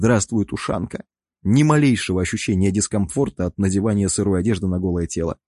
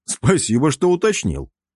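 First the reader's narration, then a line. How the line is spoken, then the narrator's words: Snort. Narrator (Russian): хмыкнул я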